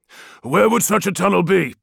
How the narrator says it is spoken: Arcamus grunted

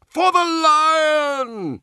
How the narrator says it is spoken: he roared

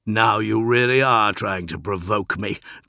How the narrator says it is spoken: growled Dorn, but the words still held a note of laughter

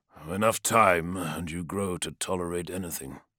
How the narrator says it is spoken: said Arcamus, his voice flat and humorless

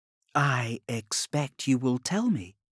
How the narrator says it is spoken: purred

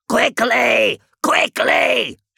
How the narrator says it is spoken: shouted Septicus

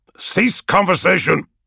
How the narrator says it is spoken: Raja barks

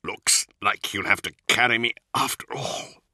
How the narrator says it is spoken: he gasped

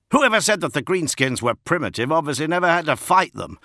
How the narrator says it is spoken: shouted Gaius Cafin, as another greasy explosion of flame and black smoke erupted nearby

